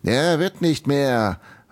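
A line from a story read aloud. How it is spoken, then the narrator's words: Calling out. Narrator (German): rief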